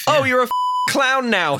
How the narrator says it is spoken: shouts

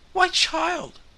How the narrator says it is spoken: cried Mrs

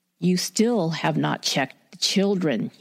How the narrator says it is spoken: growls

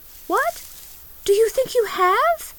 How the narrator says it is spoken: cried the little girl

